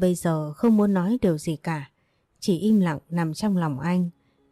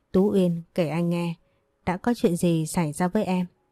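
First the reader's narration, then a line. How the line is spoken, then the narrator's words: Soft question. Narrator (Vietnamese): anh khẽ hỏi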